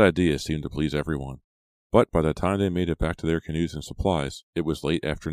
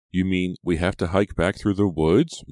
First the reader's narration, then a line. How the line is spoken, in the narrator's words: Maya moaned